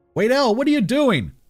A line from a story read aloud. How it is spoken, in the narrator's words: yelled